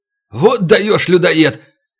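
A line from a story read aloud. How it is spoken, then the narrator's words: Shout. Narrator (Russian): крикнул вслед Морз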